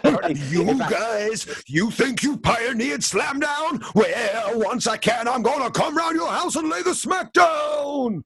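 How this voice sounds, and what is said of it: Hulk Hogan impression. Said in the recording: “you doing a Hulk Hogan voice”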